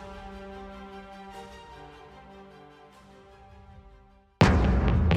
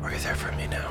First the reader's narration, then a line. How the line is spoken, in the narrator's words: She whispered under her breath